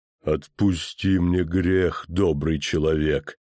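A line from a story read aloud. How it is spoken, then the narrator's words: Pleading, sepulchral voice. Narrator (Russian): попросил он за могильным голосом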